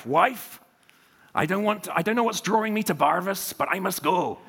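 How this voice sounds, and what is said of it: Put-on accent in quoted speech. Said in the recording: “Okay, I'll leave the accent... oh no, it's come back.”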